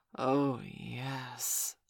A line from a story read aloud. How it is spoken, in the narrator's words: hissed quietly